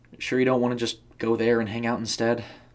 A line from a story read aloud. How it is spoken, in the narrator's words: Abby asked nervously